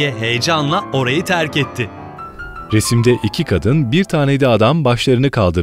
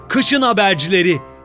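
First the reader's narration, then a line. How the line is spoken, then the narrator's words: Villagers shouting in chorus. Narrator (Turkish): diye bağırarak tekrarladı bütün köylüler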